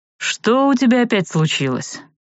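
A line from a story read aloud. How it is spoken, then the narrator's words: Resigned sigh. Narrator (Russian): спросил Арт, обреченно вздохнув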